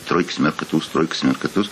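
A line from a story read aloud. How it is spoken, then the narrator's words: Muttering. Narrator (Russian): бормочет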